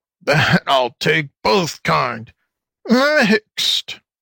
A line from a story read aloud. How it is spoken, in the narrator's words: chuckled the fox, trying to be funny